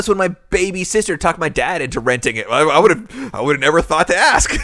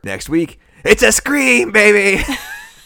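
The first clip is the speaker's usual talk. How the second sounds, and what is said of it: Poor Matthew Lillard impression, Shaggy-like. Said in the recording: “That was the worst Matthew Lillard impression ever. ... It sounded that sort of more like Shaggy.”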